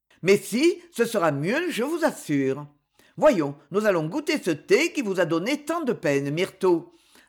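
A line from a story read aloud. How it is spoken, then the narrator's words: Cheerful. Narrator (French): ajouta-t-il gaiement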